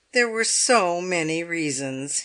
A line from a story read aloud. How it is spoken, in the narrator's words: said with a sigh